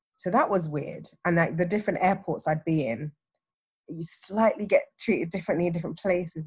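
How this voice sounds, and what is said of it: English accent. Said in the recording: “my accent's like, oh, okay, you're a POM. Like, this is your privilege because you're English”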